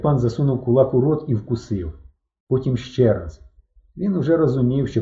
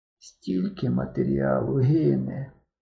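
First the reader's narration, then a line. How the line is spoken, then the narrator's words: Said, then suddenly rasped. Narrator (Ukrainian): сказав Рубченко і раптом прохрипів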